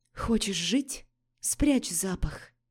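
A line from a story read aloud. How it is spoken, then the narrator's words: Whisper. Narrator (Russian): Прошептала Лорея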